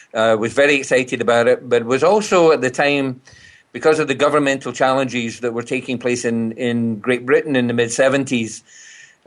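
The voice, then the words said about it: Distinctive Scottish accent. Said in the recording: “been away from Scotland over 50 years, I've retained this accent ... it's very distinctive ... it has that unique sort of sounding uh, flavor to it”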